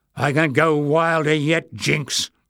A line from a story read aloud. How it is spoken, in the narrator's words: growled Barda